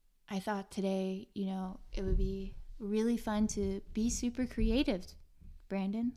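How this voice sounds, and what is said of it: Usual voice. Nothing is said of it.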